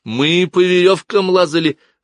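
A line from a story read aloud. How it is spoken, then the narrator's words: Joyful. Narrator (Russian): радостно произнес Кай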